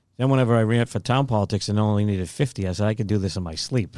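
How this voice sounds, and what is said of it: Boston accent. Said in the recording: “if you couldn't tell by the accent, ... grew up in the Boston area”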